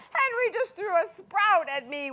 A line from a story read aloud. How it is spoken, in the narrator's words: wailed Peter